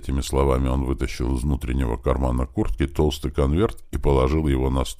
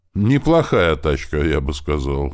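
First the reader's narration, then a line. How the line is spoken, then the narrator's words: Snort. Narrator (Russian): хмыкнул Бер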